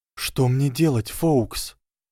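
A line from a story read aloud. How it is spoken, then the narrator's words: Whisper. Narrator (Russian): прошептал Гарри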